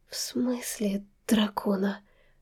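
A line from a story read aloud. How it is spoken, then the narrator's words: Weak questioning voice. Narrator (Russian): слабым голосом переспросила я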